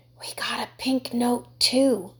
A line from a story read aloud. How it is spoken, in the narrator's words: Michael whispered